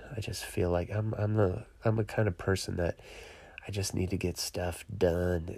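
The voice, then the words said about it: Sick, strained voice. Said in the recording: “I got sick. I am sitting, or I should say lying, in my sick bed. Ugh, I'm hurting. You can probably hear it in my voice.”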